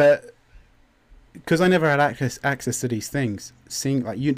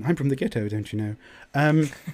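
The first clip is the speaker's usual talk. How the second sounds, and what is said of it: Exaggerated British accent. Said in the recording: “which sounds silly in a British accent.”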